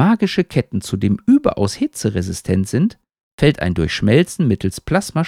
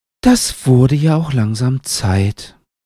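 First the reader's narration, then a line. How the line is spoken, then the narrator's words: Sighed. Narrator (German): seufzt Hut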